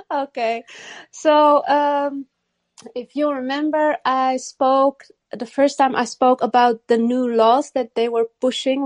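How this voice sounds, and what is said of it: Foreign-accented English. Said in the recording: “I remember the accent.”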